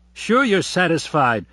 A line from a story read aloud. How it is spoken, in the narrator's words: said Abe impatiently